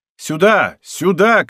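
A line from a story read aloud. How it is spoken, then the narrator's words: Male shout. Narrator (Russian): кричал он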